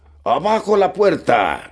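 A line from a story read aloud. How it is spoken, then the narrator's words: Shouted. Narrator (Spanish): gritó este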